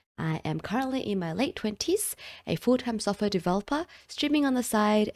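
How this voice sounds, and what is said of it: Australian accent. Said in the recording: “I'm also from Australia, if you couldn't recognize the accent ... what the Australian accent sounds like, I know I'm not like true blue Aussie, but I'm still Australian”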